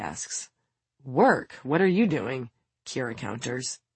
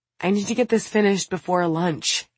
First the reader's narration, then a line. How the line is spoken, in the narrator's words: Kira sighs